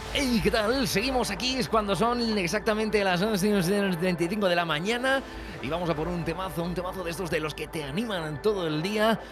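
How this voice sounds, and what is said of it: Radio announcer voice. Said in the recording (Spanish): “voz de locutor de Radio Fórmula ... Y has visto la caidita, ¿no? Eso es muy de locutor de Radio Fórmula.”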